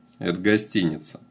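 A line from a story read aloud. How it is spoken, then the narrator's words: Dry, matter-of-fact. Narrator (Russian): сухо проинформировал Данила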